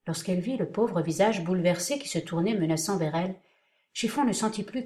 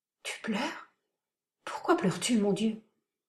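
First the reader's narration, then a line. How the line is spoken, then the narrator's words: Timid. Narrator (French): Et timidement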